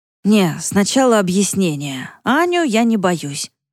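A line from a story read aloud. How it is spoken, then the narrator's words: Hoarse voice. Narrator (Russian): послышался хриплый голос Димы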